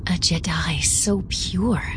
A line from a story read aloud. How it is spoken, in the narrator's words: Kara breathed